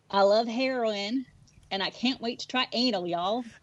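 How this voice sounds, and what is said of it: Put-on Southern US accent. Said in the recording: “do their best Southern accent”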